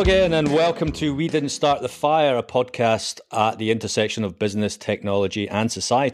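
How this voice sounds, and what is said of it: Usual voice. Nothing is said of it.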